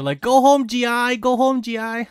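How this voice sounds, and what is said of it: Bad put-on Asian accent. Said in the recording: “most people that do the Asian accent, they always end up sounding like the Chinese guy from South Park ... Please stop using that accent. It's really bad.”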